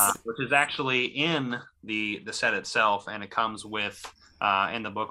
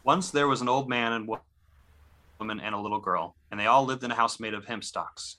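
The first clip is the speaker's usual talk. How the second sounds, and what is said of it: Storytelling reading voice. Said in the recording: “put on my reading voice”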